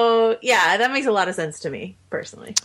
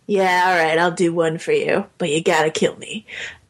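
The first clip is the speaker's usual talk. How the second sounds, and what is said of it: Harrison Ford impression. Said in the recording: “my really good Harrison Ford impression”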